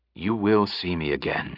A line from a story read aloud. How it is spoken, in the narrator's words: he said quietly